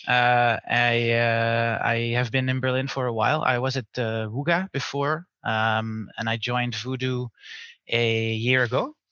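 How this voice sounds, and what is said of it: Dutch accent. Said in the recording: “I'm from the Netherlands, as you can hear from my Dutch accent”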